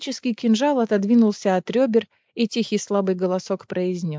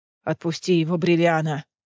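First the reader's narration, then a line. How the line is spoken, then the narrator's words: Growling. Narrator (Russian): прорычал Кассиан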